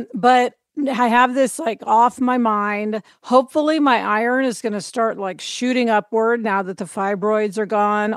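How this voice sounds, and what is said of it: Slightly hoarse voice. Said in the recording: “my voice is a little hoarse actually from the surgery”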